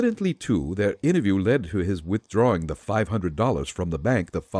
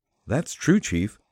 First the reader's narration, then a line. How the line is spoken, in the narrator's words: said Patsy